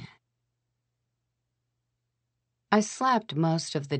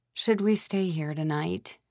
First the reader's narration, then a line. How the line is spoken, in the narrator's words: I asked miserably